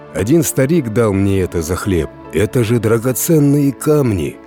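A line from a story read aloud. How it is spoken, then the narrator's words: Peasant exclaiming. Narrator (Russian): воскликнул крестьянин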